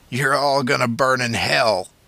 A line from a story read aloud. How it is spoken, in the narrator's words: spat